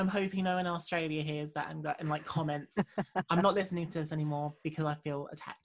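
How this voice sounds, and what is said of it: Usual voice. Nothing is said of it.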